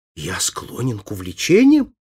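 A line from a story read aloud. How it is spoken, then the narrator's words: Exclamation. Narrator (Russian): воскликнул Фабриций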